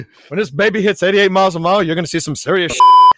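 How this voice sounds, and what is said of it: Imitates another person's voice. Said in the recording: “I do a Christopher Lloyd impersonation”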